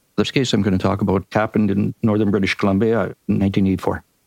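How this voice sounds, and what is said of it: Canadian accent. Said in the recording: “you have to put up with my Canadian accent too ... We love your Canadian accent”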